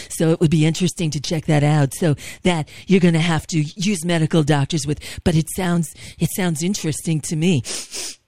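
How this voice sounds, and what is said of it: Imitates another person's voice. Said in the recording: “my Trump impression ... you do it very well. I'm impressed.”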